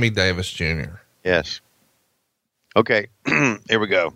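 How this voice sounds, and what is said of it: Usual voice. Nothing is said of it.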